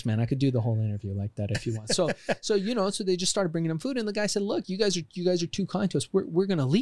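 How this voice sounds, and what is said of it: Usual voice. Nothing is said of it.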